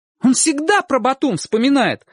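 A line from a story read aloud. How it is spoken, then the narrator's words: Exclaiming. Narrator (Russian): воскликнул Чик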